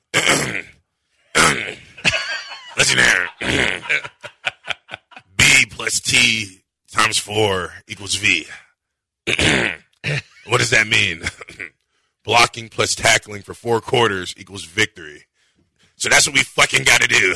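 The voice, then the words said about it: Imitates another person's voice. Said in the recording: “He nailed that impression.”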